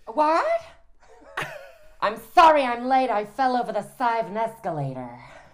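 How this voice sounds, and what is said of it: Imitates another person's voice. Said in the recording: “you're sort of really well known for an impersonation of Jennifer Coolidge”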